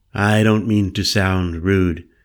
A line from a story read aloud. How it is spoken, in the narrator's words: said evenly